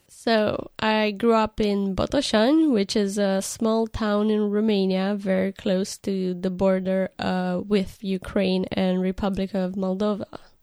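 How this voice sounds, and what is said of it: Non-English foreign accent. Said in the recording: “you don't have an English accent like mine”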